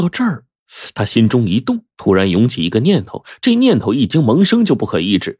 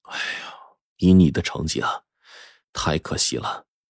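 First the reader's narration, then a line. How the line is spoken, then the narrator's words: Regretful sighing teacher. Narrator (Chinese): 老师就心中感慨呀 不由得就叹气说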